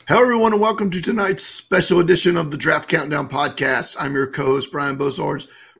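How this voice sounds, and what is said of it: Worn-out, strained voice. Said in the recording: “My voice is gone, everybody. I've been talking a lot. I'm a little bit under the weather”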